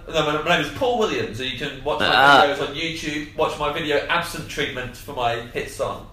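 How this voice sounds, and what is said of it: Impression of Paul Williams' accent. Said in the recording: “good accent though ... that sounded like you. Paul.”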